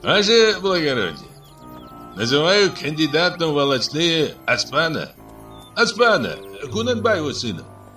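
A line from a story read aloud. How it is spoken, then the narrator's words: Loud shout. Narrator (Russian): Сергей громко крикнул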